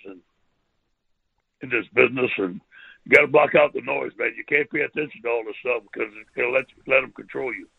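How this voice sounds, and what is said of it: Cajun accent. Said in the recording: “maybe the way I talk, my accent. I'm proud of being a Cajun.”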